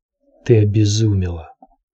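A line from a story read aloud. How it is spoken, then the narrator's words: Hoarse woman's voice. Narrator (Russian): хрипло проговорила Божья жена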